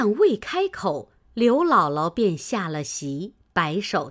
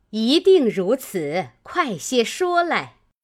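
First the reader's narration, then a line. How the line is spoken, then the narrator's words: Group laughing. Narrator (Chinese): 王夫人等都笑道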